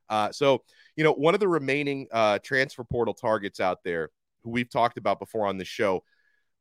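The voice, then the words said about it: Voice sounds sick and off. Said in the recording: “I don't know if you can hear it in my voice, but I feel like garbage today. I'm getting sick. ... if I sound a little bit off to you”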